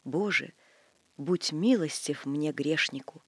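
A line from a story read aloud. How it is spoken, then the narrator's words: Soft whisper, prayer. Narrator (Russian): Все эти святыни тихонько шепчут Богу от имени своего ктитора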